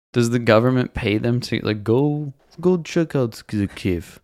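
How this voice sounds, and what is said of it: Usual voice. Nothing is said of it.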